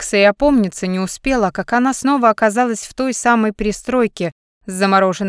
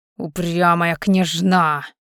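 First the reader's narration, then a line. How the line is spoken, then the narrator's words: Hissed through teeth. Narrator (Russian): прошипел он сквозь зубы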